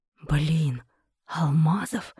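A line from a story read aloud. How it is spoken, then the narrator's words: Disbelieving whisper. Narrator (Russian): прошептал Сергей тихо неверящим голосом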